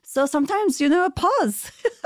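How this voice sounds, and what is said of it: Put-on French accent. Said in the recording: “that's my French impression.”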